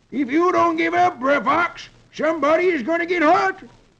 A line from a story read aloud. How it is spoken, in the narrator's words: Brer Sheriff hollers